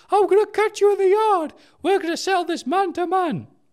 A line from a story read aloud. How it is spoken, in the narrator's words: threatens in a higher voice